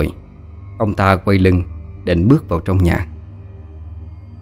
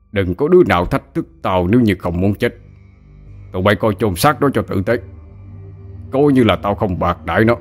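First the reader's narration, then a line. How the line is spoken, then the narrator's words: Harsh menacing voice. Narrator (Vietnamese): Ông ta gằn giọng nói thêm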